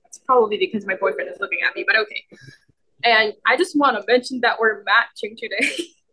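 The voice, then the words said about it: Nervous, shaking voice. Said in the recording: “I don't know why I'm acting so nervous and, like, my voice is clearly shaking”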